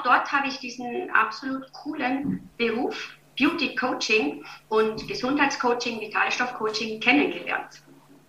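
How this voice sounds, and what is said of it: Viennese German accent. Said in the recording (German): “ich höre so gerne dein Dialekt, weil du hast es nie ganz abgelegt. Ich finde das voll angenehm ... hast du dein Wiener Dialekt.”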